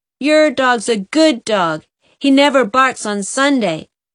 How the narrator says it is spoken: Waddy Flagg shouted

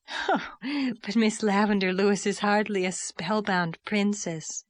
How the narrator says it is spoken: laughed Diana

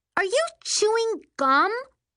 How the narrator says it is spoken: She shrieked at Poodles

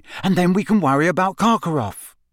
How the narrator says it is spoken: she said desperately

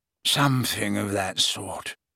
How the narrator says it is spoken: he mumbled

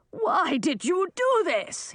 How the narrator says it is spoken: he yelled at Millie

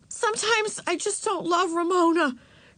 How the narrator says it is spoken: blurted out to get it over with

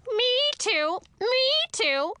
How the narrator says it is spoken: A shrill, scratchy voice was screaming

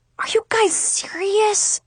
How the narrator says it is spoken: Brandon groaned

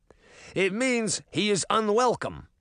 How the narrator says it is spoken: the first guard snapped

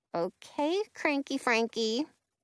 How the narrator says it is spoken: Penny mutters

